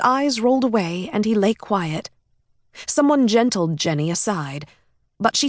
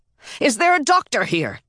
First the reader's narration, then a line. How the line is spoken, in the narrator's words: shouted